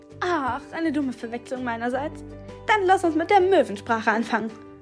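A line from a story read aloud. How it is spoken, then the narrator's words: Suggesting with giggling. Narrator (German): schlug Nele vor und fing erneut an zu kichern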